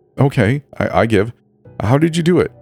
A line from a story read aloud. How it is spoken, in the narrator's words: asked